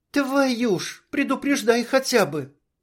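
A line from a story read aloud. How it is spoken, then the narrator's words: Startled little squeal. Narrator (Russian): Чуть взвизгнула Анжелика, вздрогнув от неожиданности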